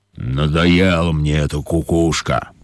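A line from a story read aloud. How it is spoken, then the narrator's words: Grumbling lion. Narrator (Russian): проворчал лев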